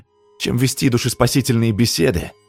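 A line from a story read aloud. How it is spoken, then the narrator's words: Snapping retort. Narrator (Russian): огрызнулся парень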